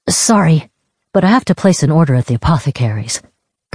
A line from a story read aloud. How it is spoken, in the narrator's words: Kavik said